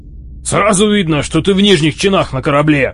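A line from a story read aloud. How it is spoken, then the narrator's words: Barking. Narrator (Russian): рявкнул Арнил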